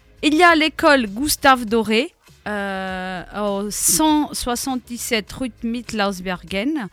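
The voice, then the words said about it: Nice accent on place names. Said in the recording (French): “joli accent.”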